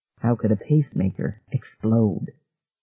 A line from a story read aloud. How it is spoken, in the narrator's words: Ferguson asked softly